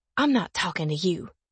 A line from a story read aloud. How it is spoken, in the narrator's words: she says, her voice low and harsh